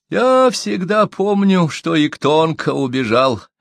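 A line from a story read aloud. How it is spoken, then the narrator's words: Sad. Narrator (Russian): печально ответил Доксо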